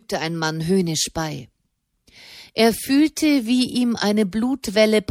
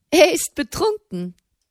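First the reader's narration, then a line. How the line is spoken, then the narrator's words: Woman giggling from behind. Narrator (German): kicherte eine Frauenstimme hinter ihm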